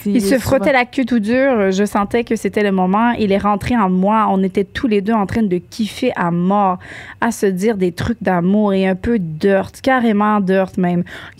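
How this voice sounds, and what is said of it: Put-on France French accent. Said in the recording (French): “ton interprétation ... c'est tout est dans l'accent ... Là, je l'ai dit en français”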